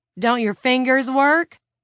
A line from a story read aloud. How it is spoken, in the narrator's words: someone asked, to general laughter